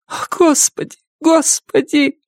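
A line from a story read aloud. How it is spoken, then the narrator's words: Breathless shaking sobs. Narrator (Russian): Памела рыдала так, что вся тряслась и не успевала дышать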